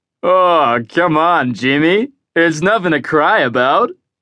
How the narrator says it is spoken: said one of Horace's NASA technicians through the laughter

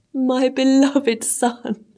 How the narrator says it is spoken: cried the king

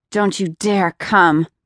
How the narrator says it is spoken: she growled into his face

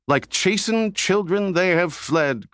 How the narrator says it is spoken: cried another

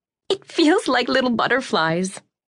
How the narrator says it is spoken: Anna laughed

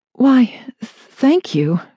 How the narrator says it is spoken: she stammered

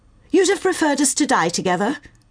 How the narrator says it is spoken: say more harshly than intended

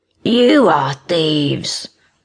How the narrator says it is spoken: the beast growled

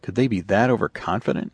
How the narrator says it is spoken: he murmured

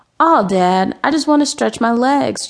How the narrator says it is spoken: Junebug whined

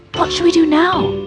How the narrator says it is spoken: cried

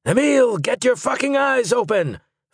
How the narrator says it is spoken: Finn Auer shouted

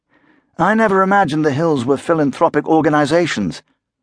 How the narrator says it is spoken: Wakeman said dryly

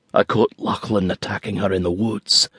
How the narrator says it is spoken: Drew whispered

